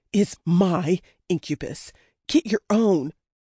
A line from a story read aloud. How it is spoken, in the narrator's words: panted